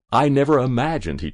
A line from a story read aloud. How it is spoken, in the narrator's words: he chuckled